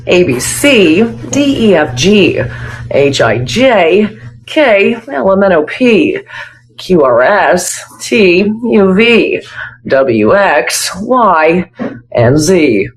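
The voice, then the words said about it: Newscaster voice reciting the alphabet. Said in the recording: “my impression of somebody who works in the news doing the alphabet ... She's even got the tone down.”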